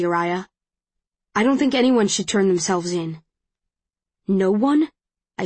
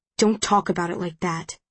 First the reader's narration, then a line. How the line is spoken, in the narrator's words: he says in a growl